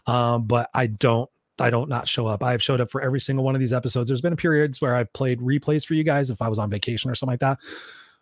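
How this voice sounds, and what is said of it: Sounds unwell. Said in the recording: “I don't feel very good, as you can hear in my voice.”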